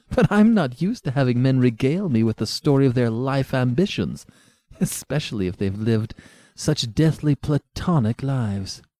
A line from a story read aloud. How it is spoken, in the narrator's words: she said, melting into laughter